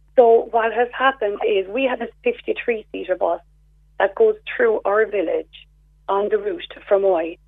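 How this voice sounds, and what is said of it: Hoarse voice. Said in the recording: “I've got a sore throat ... I'm hoarse.”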